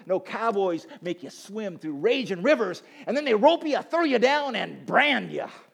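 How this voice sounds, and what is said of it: Put-on cowboy accent. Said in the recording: “Sorry for the cowboy accent there ... My cowboy accent.”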